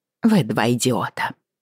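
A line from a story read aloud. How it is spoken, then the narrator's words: Snorting. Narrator (Russian): фыркнула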